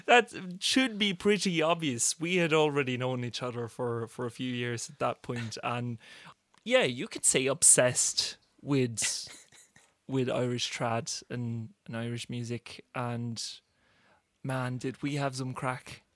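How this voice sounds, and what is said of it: Norwegian with an Irish-sounding accent. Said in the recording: “accent isn't quite Norwegian at times ... he is in fact a clear man”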